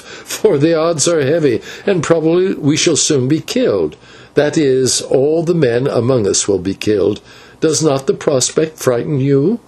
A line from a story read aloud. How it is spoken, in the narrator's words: he answered with a little laugh